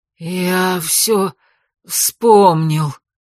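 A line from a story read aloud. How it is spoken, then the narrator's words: Sudden hoarse wheeze. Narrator (Russian): неожиданно просипел он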